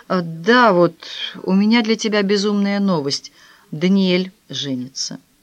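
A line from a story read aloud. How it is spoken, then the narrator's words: Sighing. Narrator (Russian): Вздохнув, он сказал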